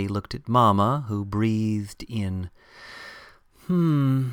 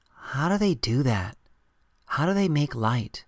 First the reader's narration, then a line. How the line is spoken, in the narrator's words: Martin quietly asked